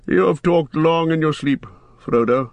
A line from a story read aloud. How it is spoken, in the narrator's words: said Gandalf gently